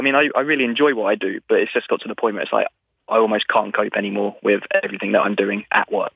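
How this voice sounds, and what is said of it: English accent, calm voice. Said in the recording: “I am English... you sound a lot like that guy I once sat on a bench with in that park in London... you have a similar, like, calming vibe”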